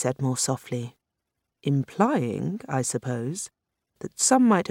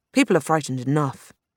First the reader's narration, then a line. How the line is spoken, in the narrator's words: Grace said now, sternly